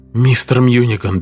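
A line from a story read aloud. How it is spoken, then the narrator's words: Weak exhale. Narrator (Russian): бессильно выдохнул Харрис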